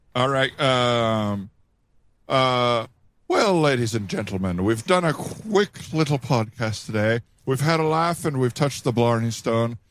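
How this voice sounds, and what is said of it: Put-on Irish accent. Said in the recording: “Do your best Irish accent.”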